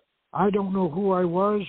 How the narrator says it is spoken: she cried, like a lost soul

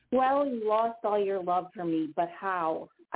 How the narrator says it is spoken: I scream out loud

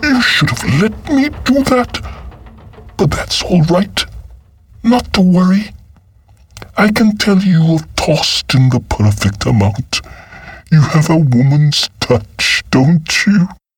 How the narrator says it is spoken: Berenancy exclaimed

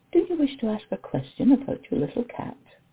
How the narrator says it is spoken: slowly patched out the words

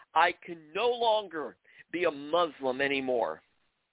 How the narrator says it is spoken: In anger and frustration, shouting

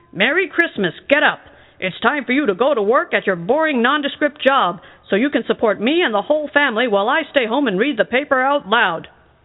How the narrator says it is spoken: he yelled

